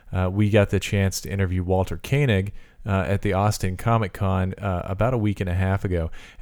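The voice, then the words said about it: Voice lower than normal. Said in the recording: “my voice is a little lower than normal. I actually caught something, a cold”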